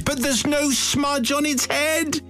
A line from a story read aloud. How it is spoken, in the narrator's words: Suddenly, Jean cried